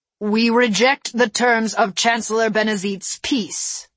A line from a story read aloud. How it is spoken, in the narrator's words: he said